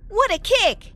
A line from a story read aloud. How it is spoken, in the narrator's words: I exclaimed in time